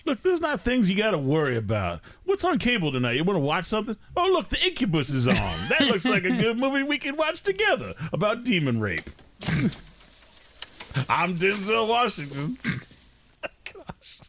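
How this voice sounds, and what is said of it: Impression of Denzel Washington. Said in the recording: “my impersonation of Denzel Washington”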